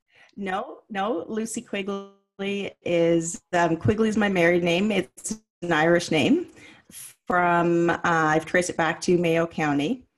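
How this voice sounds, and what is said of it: Canadian accent. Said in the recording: “this beautiful Canadian accent”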